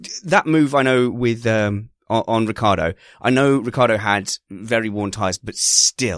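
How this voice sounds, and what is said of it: Usual voice. Nothing is said of it.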